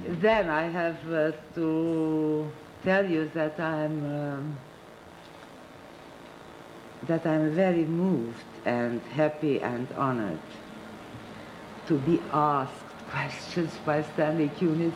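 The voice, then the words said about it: Non-native English accent. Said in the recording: “my language barrier and for my accent”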